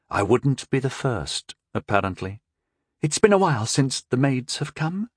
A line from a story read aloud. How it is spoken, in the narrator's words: the girl admitted in a shaky voice